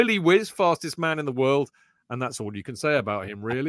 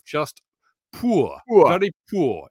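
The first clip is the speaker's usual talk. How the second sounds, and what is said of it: Put-on Geordie accent. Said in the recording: “in a Geordie accent”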